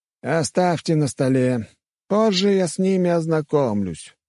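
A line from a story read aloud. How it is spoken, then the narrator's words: Bored. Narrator (Russian): скучающим тоном сказал герцог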